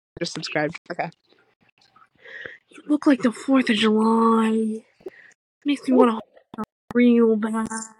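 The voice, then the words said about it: Weak Jennifer Coolidge impression. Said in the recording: “do a Jennifer Coolidge voice? ... It's not good, but like ... See, it's not good, but it's there.”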